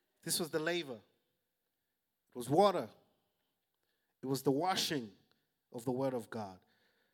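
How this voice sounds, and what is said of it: African accent. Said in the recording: “my African beautiful accent”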